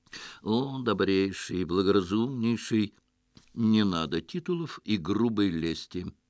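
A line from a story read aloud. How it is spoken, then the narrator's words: Gentle interruption. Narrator (Russian): мягко остановил хозяина наш герой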